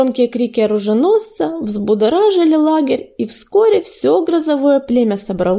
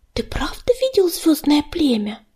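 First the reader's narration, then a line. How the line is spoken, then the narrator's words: Spellbound whisper. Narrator (Russian): прошептала Тростинка, завороженно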